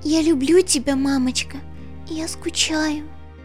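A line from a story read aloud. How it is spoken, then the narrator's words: Tearful strained whisper. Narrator (Russian): прошептала пони и, с трудом улыбнувшись, дала волю одинокой слезинке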